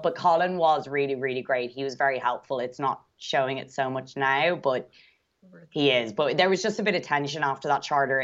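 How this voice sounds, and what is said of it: Speaker's own distinctive accent. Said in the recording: “I could listen to your accent all day, by the way. I love it. ... Your accent makes everything you're saying sound 2% more interesting”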